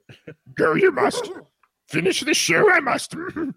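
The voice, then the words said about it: Terrible Yoda character voice. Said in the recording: “my terrible Yoda impression.”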